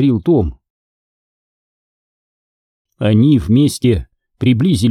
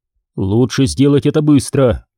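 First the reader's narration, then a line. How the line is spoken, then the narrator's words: Shouted. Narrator (Russian): крикнул Том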